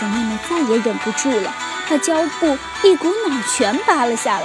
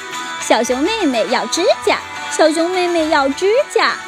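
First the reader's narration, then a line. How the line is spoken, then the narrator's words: Children's teasing chant. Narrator (Chinese): 李兹和其他几个孩子 开玩笑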